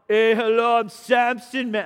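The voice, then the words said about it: Imitates another person's voice. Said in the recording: “That's my best Arnold ... all my accents are the same”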